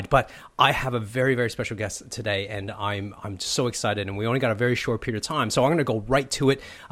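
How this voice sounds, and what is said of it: Sick, flu-affected voice. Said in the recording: “sorry about my voice. I've been suffering the flu for the last week and a bit”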